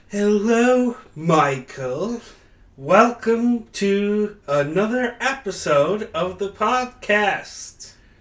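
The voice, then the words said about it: Put-on British accent. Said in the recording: “Did you start this episode with a British accent and then lose it immediately?”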